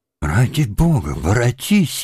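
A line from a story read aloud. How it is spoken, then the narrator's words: Wailing shout through tears. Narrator (Russian): не голосом и слезами кричал он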